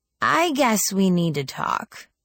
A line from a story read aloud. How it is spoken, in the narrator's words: she sighed again and said